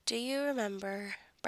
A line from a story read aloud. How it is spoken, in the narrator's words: Brendan asks softly